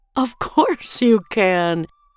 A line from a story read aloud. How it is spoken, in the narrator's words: her mother said with a gentle laugh